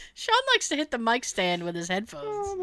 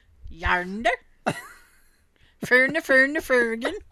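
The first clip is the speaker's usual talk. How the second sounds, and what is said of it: Mock Swedish-accented pirate voice. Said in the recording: “That's a pirate with an accent... he's a Swedish pirate”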